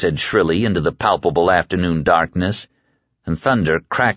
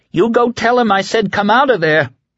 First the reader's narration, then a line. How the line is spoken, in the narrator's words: she cried